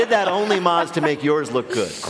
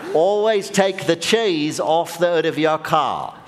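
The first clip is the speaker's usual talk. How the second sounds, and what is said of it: Poor put-on Australian accent. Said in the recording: “in an authentic Australian accent ... That was terrible.”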